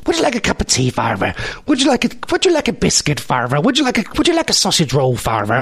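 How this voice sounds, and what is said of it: Put-on weird Irish accent. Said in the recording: “why are you talking in that weird Irish accent? You're not even Irish.”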